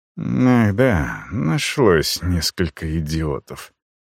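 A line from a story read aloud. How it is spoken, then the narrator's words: Mutter. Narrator (Russian): пробормотал советник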